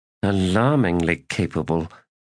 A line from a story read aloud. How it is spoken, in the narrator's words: muttered Janath